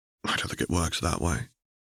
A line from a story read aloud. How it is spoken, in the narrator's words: Harry murmured in reply